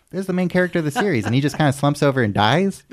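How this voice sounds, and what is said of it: Imitates another person's voice. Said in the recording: “your Aiden impression”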